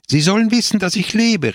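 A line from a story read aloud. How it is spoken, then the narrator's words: Exclaimed. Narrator (German): rief aus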